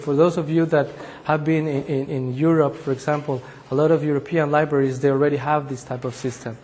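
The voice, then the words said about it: Voice slightly affected by cold. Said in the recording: “I apologize a little bit for my voice. I have a little cold”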